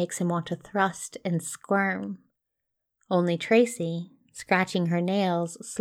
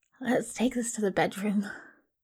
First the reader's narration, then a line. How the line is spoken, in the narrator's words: he croaks